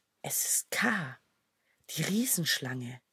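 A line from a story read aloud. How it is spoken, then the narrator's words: Little snakes whispering. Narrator (German): wisperten die kleinen Schlangen in der Finsternis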